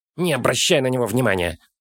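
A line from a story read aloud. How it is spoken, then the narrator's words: Hissing. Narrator (Russian): зашипел Фолка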